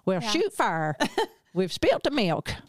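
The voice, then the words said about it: Put-on American redneck accent. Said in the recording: “They do American accents. ... I bet they do like a redneck accent or something”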